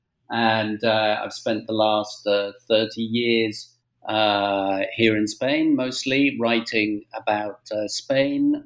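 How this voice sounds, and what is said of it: British English accent. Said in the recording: “I'm British born, as I'm sure your readers, your listeners will tell from my accent”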